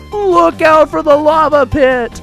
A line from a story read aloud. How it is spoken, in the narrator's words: yelled